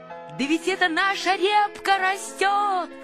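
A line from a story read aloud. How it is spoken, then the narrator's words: Shout. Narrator (Russian): закричал Павлик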